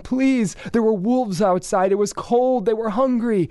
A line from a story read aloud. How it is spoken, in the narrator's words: They would plead for him